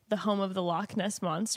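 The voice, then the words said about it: Attempted Scottish accent. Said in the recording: “I cannot do a Scottish accent, but I'm going to try a couple times... also cannot do a Scottish accent”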